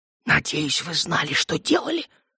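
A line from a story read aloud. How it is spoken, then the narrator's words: Heated whisper. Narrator (Russian): горячо зашептал Наут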